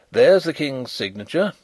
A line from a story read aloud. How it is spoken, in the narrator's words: he said